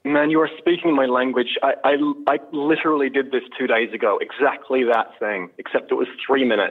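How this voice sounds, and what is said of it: Beautiful non-local accent. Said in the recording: “you are fortunate to speak it in a very beautiful accent”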